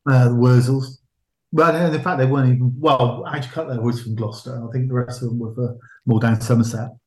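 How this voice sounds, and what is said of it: Regional English West Country accent. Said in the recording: “I'm speaking, my accent's coming out.”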